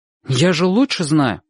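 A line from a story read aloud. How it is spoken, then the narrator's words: Irritated. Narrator (Russian): сказал он раздраженно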